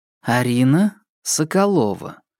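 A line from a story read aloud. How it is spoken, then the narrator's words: Slow and clear. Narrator (Russian): медленно и четко произнесла Кира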